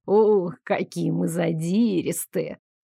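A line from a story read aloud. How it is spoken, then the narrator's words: Purring. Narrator (Russian): мурлыкнул он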